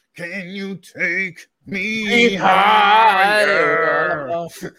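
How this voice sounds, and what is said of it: Deep guttural rock singer impression. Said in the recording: “really deep guttural fucking like noises... lame Pearl Jam impersonation... best impersonation”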